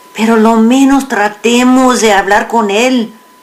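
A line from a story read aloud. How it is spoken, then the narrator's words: Pleading. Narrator (Spanish): suplicó Narciso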